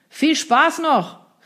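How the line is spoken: Called out. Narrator (German): rief der noch, bevor die laut brechenden Wellen jedes weitere Wort verschluckten

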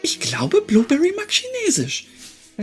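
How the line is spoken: Giggle. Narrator (German): Helena kicherte

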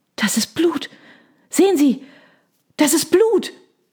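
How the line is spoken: Gasp from behind. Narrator (German): keuchte jemand in der Reihe hinter uns

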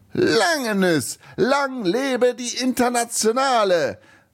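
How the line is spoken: Overly loud exuberant shout. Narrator (German): rief der Rumäne etwas zu laut und zu überschwänglich

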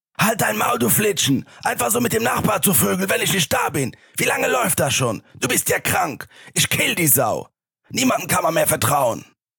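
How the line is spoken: Screaming. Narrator (German): Ihr Mann schrie

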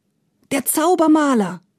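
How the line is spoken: Shout from crowd. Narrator (German): rief einer

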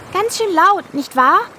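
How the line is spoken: Calling out. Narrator (German): rief Hildegard

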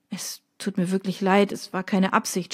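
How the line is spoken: Stammering. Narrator (German): stammelte

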